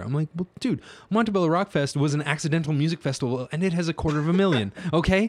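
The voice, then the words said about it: Raised, agitated voice. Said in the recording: “I'm raising my voice right now”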